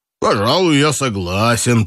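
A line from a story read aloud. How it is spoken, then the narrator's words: Deep bass voice. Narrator (Russian): пробасил Дмитрий Степанович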